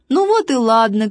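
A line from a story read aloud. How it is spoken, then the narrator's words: Shout then laughter. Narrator (Russian): крикнул важный, засмеялся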